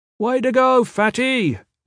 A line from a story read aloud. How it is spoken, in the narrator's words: one of the older Blackguard trainees shouted